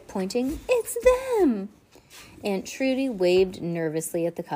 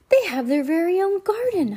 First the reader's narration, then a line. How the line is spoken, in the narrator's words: Heidi gasped